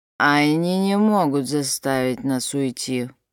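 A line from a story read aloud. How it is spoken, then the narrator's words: Muffled grumbling. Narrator (Russian): проворчал из палатки Рамон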